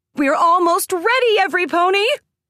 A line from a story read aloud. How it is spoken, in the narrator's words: Plot Twist shouted at the line